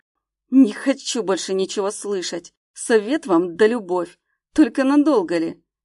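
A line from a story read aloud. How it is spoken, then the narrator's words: Angry smirk. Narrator (Russian): Зло усмехнулся он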